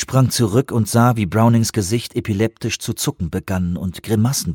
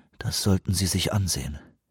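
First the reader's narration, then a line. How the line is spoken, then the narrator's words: Quiet. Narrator (German): sagte er leise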